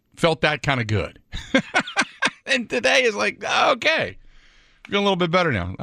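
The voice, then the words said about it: Imitates another person's voice. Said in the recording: “was my best John Madden impersonation”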